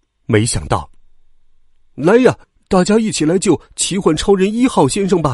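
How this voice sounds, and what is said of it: Usual voice. Nothing is said of it.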